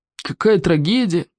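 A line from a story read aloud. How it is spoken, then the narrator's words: Sighed. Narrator (Russian): Вздохнул Смаркал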